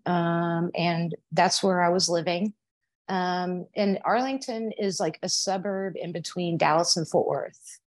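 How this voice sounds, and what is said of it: Texan accent. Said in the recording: “I was born in Arlington, Texas, if you can't tell by my accent”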